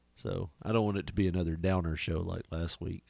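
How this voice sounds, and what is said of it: Hoarse, nearly gone voice. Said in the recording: “the voice is just about gone ... that's why I'm having to do the old NPR or PBR ... doing that voice”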